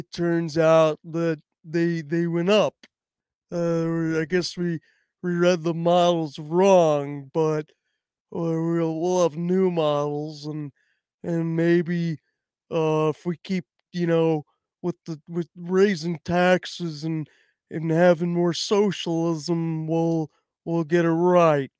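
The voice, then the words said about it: Imitates another person's voice. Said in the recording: “my impression of Janielle. Actually, it was bad. Start off bad, but then I feel like I found the rhythm a little bit.”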